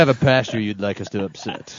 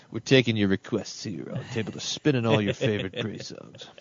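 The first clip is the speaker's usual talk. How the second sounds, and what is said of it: 70s radio DJ voice. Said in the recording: “got to do the radio voice. ... That's my 70s DJ impression.”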